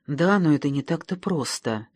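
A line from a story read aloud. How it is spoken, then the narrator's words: Timid objection. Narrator (Russian): робко возразил один из Номов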